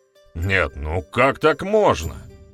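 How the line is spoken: Feigned exclamation. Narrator (Russian): наигранно воскликнул ведун

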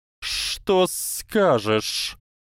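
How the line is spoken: Hissing. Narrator (Russian): прошипела раскачивающаяся фигура

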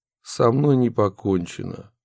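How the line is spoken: Calm reply. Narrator (Russian): также спокойно ответил Анатолий Борисович

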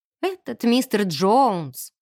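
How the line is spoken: Sighing. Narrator (Russian): вздохнула я

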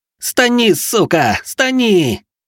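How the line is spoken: Howling young man. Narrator (Russian): взвыл молодой человек

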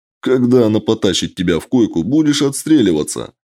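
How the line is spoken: Laughing. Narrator (Russian): рассмеялся Костя

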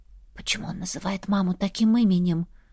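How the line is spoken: Whispered. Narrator (Russian): Уточнила шепотом

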